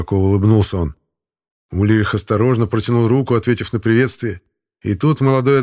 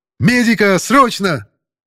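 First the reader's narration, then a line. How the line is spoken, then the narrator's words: Shouting. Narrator (Russian): крикнул одаренный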